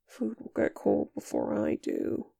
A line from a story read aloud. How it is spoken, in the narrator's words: Nick murmurs